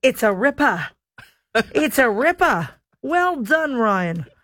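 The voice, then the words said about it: Attempted Australian accent. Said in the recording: “My Australian accent is absolutely abysmal ... I'm trying to craft my Australian accent ... That was pretty good ... I think that was pretty bad”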